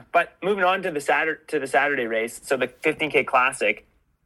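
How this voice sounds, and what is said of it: Slightly congested voice from a cold. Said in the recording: “I've got a little bit of a cold. I've got a little bit of a cold ... My head's a little. Uh, my head's a little oh, foggy.”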